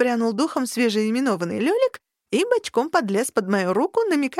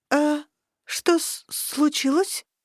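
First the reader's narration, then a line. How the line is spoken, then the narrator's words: Stunned, forced out. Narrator (Russian): выдавила ошарашенно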